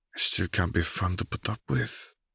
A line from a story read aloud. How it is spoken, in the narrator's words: Fleur murmured